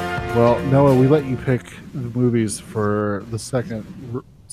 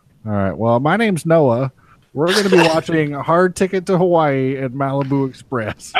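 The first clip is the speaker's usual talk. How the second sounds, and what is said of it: Nasal, yelling imitation of another person. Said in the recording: “that's a pretty good impression... That sounds just like me... Just a little nasally and yelling at the titles of shitty movies... You nailed it.”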